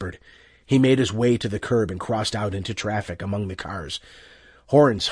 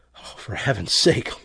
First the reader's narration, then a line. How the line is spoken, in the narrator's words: Loyce muttered, sickened